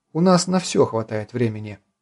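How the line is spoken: Calm reply. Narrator (Russian): спокойно ответила Дина

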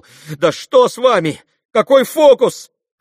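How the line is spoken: Frightened shout. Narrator (Russian): прокричал тот уж совсем в испуге

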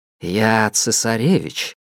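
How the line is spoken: Soft. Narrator (Russian): произнес он мягко

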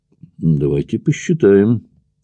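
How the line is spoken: Thoughtful baron. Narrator (Russian): задумчиво произнес барон

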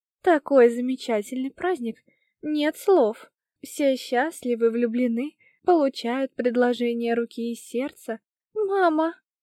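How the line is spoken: Thin plaintive voice. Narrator (Russian): Тоненький голос Самир прозвучал жалобно

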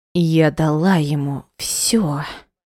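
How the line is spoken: Low snakelike hiss. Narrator (Russian): Понизив голос до змеиного шипения, процедила она

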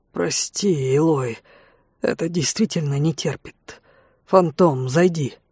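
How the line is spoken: Dull, hollow voice. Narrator (Russian): Эрдал глухо сказал

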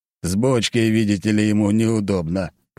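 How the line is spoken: Old man grumbling. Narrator (Russian): пробурчал дед

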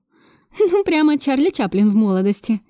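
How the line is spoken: Giggling. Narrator (Russian): хихикнула я

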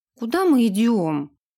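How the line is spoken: Offended question. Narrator (Russian): обиженно спросила она

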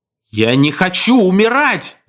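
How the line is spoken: Wailing scream. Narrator (Russian): завопил Герстон

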